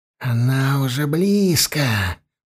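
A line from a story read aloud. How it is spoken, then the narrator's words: Whisper. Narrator (Russian): прошептал он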